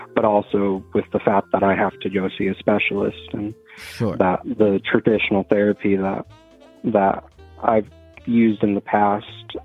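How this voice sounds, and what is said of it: Rough, hoarse voice. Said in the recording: “my voice is rough”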